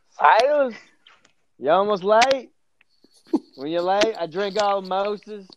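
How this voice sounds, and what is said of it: Put-on accent. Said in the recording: “That accent.”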